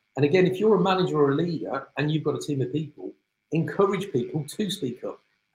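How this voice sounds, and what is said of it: British accent. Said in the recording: “you can tell by my accent, I'm from the UK”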